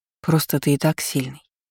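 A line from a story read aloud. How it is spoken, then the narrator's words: Soft remark. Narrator (Russian): мягко заметила я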